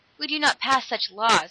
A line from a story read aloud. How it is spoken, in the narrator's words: acknowledged Dan bitterly